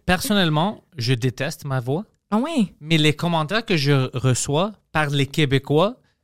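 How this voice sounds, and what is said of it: Greek-sounding accent in French. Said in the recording (French): “c'est pas une, accent anglophone. C'est vraiment comme si je parle grec en français ... c'est pas anglo ... même mon accent, c'est bizarre ... le côté grec”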